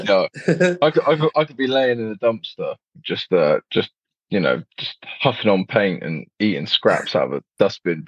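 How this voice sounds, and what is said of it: Accent that sounds posh. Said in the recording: “you got the cool accent too ... because of my accent, it's very redeeming and it makes me sound posh”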